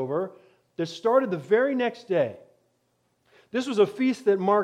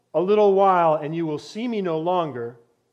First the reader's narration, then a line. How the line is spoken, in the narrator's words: He'd said